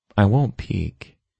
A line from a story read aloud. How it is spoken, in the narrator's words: she whispered